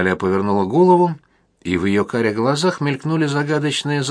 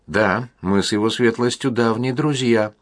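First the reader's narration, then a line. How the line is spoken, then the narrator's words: Calm confirmation. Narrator (Russian): спокойно подтвердила она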